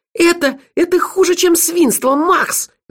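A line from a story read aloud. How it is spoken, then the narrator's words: Shrill squeal. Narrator (Russian): взвизгнула Меломори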